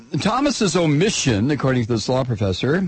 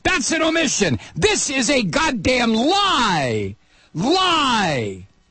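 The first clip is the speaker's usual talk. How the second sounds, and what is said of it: Yelling angrily. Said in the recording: “I'm yelling.”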